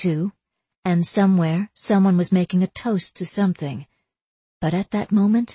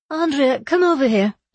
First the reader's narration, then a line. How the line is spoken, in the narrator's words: she called, her voice sounding almost merry over the din of the party